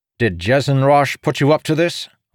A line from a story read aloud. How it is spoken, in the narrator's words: Ardor asked, his voice ringing in the empty stone hallway